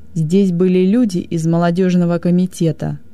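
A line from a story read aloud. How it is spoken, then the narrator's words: Growled. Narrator (Russian): прорычал он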